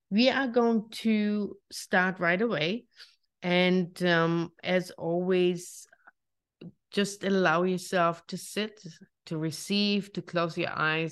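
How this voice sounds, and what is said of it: German accent. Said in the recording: “my lovely German accent”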